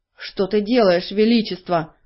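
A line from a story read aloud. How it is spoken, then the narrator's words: Growl. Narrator (Russian): зарычал он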